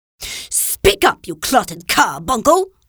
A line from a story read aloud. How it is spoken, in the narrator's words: roared the Trunchbull